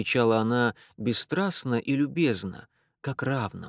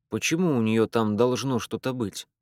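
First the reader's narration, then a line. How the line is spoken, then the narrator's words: Plain. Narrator (Russian): спросил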